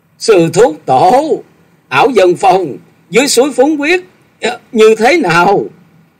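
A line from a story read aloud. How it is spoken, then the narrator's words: Urgent shout into ear. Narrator (Vietnamese): Chàng vội kề tai ông rồi thét gọi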